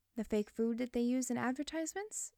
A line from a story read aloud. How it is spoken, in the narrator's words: She giggled again